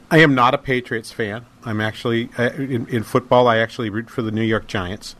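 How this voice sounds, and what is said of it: New England American accent. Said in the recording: “if you suss through my accent a little bit, you realize I'm from New England.”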